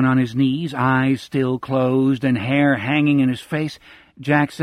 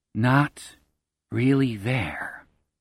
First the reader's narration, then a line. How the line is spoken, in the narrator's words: Jack murmurs